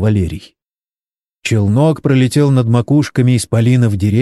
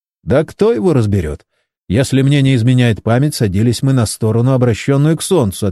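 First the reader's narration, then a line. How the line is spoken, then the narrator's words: Plain. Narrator (Russian): ответил Джон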